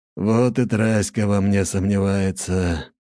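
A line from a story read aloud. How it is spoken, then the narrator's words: Sigh. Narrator (Russian): вздохнул Лажон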